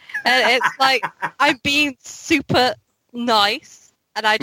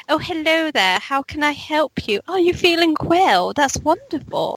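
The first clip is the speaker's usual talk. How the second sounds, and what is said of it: Exaggerated posh British telephone voice. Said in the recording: “I put on a very, like... I really ham it up... The British accent... our own telephone voice”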